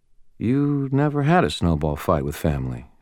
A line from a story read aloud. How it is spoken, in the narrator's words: she said quietly